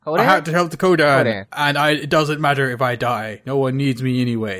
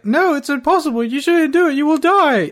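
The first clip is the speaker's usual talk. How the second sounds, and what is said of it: Imitating the character Kate. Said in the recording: “Really good Kate impression.”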